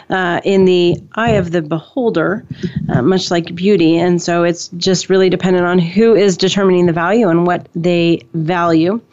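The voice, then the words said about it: Strained, hoarse voice. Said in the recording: “I'm losing my voice today”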